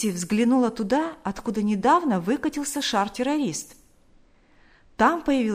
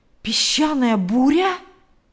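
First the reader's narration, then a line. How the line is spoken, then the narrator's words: Exclamation. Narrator (Russian): воскликнул Билл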